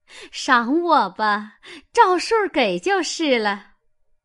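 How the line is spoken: Laughing. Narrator (Chinese): 凤姐儿笑道

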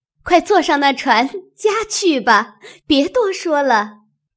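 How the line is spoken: Laughing. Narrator (Chinese): 湘云笑，又说

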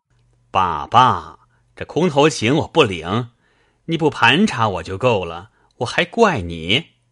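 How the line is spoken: Laughing. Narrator (Chinese): 贾琏笑道

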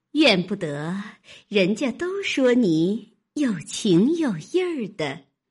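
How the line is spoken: Woman laughing. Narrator (Chinese): 那媳妇笑道

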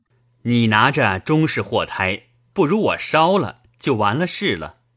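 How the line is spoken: Laughing. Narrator (Chinese): 笑道

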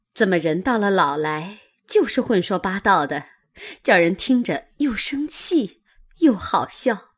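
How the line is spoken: Laughing. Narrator (Chinese): 袭人笑道

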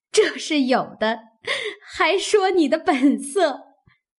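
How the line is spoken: Group laughing. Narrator (Chinese): 众人笑道

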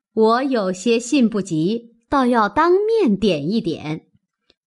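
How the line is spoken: Laughing. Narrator (Chinese): 尤氏笑道

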